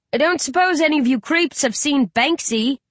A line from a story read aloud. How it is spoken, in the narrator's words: Riley gulps, then calls out loudly